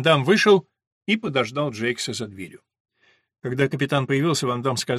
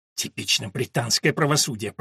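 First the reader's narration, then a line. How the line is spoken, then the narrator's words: Through gritted teeth. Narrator (Russian): процедил Кемель сквозь зубы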